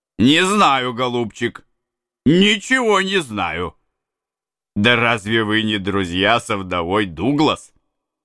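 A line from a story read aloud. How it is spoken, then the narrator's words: Laughing. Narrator (Russian): Валиец засмеялся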